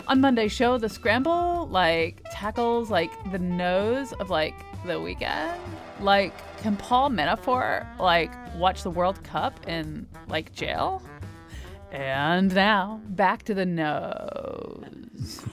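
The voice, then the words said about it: Exaggerated vocal fry delivery. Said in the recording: “I like the vocal fry there. That was very well done.”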